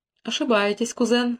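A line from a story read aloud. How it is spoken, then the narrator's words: King's calm objection. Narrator (Russian): спокойно возразил король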